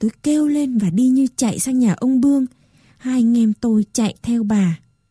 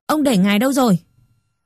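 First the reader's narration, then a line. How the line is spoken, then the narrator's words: Sharp question. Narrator (Vietnamese): Bà tôi hỏi gắt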